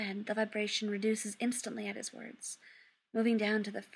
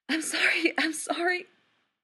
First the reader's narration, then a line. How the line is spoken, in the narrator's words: gasps